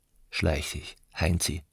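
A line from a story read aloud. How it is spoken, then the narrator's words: Calm. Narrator (German): sagte Aneschka ruhig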